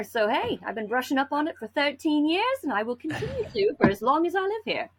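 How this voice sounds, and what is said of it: Hybrid accent. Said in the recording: “You got a hybrid accent like mine, you're going to sound absolutely bizarre no matter what comes out of your mouth”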